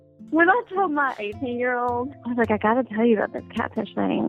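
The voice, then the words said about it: Southern American accent. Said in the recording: “I'm sure you can hear her Southern accent.”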